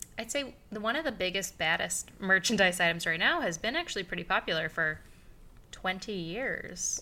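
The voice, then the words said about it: Speaker's own noticeable regional accent. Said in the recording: “My accent is showing... I do have an accent, so I guarantee I sounded weird”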